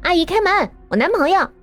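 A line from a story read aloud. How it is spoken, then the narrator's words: Shouting from upstairs. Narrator (Chinese): 楼上传来一阵声音，是 Elsa 在喊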